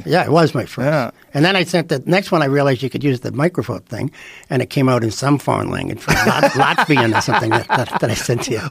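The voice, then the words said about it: Strong accent. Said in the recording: “your fucking accent ... it's never going to figure out your voice ... That's for regular voices ... accent's just too crazy ... I still have an accent ... A little bit.”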